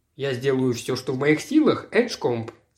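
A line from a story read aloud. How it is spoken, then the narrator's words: Plain. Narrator (Russian): сказал я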